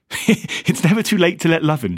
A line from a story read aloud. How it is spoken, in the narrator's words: she said, still laughing